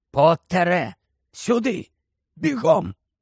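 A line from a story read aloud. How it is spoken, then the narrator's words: Hoarse voice. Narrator (Ukrainian): чийсь хриплий голос сказав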